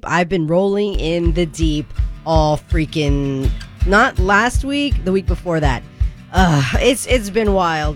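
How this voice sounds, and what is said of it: Unusually deep voice. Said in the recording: “My voice has been deep”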